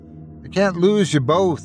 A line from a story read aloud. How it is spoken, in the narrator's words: he pleaded